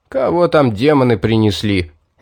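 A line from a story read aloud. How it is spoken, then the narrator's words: Grumble. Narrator (Russian): ворчание Лорка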